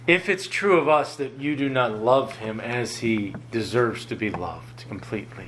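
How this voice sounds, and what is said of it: Lower, deeper voice after illness. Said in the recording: “Coming off of a sickness and illness this past week, my voice is a little bit lower... it sounds a little more manly... My voice is a little bit lower”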